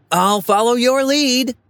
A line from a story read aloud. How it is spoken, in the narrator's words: I shout back